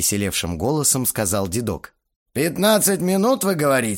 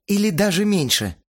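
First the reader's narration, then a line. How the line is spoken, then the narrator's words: Relieved sigh. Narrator (Russian): с облегчением вздохнула Ирина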